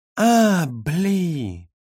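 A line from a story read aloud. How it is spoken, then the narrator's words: Drawling. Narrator (Russian): протянул Юра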